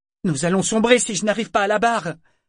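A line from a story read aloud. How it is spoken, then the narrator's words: Shouting. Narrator (French): leur cria-t-il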